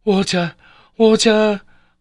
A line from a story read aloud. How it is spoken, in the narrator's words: I cried in a wild and frantic tone, like a madman